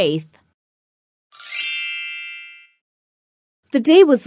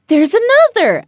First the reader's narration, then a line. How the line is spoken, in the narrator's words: exclaimed